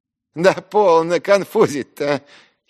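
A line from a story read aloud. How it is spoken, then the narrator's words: Giggling exclamation. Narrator (Russian): хихикая вскрикнул Ферфичкин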